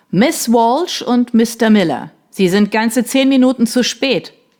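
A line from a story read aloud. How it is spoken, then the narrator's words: Thundering voice. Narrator (German): donnerte die Stimme von Mr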